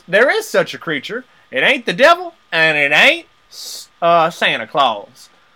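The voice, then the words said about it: Country bumpkin accent. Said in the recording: “I gave him a country bumpkin accent”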